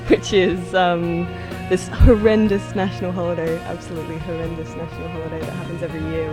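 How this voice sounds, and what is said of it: Exaggerated own accent. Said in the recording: “I'm going to let my accent really hang on this.”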